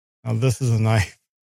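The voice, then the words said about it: Poor put-on Australian accent. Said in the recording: “That was a terrible Australian accent. ... I wasn't even trying.”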